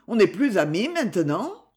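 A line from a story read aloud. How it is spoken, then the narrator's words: Reproachful tone. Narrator (French): dit Sylvain d'un ton de reproche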